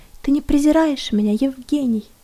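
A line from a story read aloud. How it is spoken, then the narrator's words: Quiet question, woman. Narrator (Russian): Она тихо спросила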